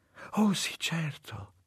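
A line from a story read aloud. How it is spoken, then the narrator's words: Woman whispering. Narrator (Italian): sussurrò lei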